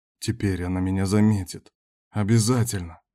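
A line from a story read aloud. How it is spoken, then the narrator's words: Whisper. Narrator (Russian): шептал он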